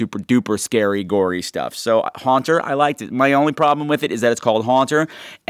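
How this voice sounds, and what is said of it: Usual voice. Nothing is said of it.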